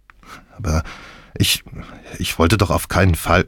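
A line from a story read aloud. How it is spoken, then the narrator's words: Stammering. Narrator (German): stammelte ich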